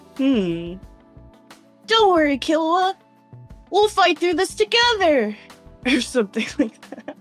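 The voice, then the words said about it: Imitated character voice. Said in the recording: “I used to do a little Gon impression”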